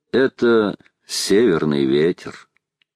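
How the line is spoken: Calm. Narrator (Russian): спокойно сказал

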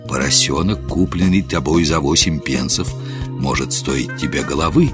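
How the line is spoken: Lowered voice, whispering in ear. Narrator (Russian): Гендон понизил голос и шепнул на ухо полицейскому

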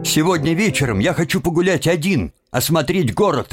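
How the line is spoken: Sharp interruption. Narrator (Russian): резко перебил его Тим

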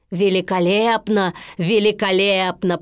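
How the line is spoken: Deep bass voice. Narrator (Russian): пробасил Стромболи

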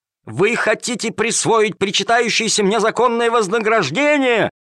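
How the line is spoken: Yelling while struggling. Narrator (Russian): вопил Калимер, вырываясь из рук жандармов

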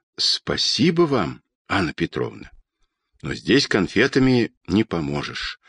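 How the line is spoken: Quiet, emotional. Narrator (Russian): тихо сказал летчик, и его смелые губы дрогнули

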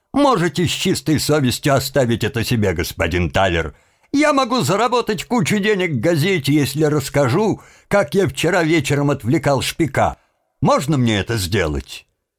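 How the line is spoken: Laughing. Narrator (Russian): Тим рассмеялся

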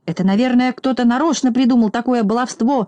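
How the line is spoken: Shouting. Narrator (Russian): закричал Торопышка

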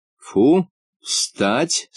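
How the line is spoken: Stern command. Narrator (Russian): строго приказала

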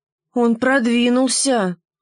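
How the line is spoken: Sighing. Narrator (Russian): вздохнула штопольная игла

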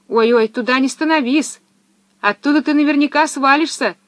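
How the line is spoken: Sudden shout. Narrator (Russian): вдруг крикнула ему Пеппи

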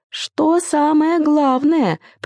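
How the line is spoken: Squeaky, male. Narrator (Russian): пропищал он

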